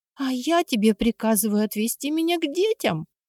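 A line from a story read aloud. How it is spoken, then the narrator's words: Queen exclaiming hysterically. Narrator (Russian): истерически воскликнула королева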